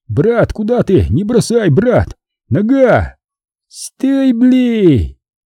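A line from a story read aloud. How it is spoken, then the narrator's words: Shouting from behind. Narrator (Russian): заорали сзади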